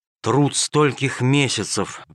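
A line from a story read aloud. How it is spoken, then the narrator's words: Sighing. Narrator (Russian): вздохнул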